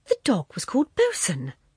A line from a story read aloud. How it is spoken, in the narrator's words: she cried delightedly